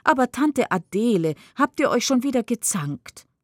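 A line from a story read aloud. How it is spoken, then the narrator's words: Exclaimed. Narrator (German): ruft aus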